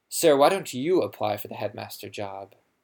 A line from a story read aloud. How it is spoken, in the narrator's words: said Malfoy loudly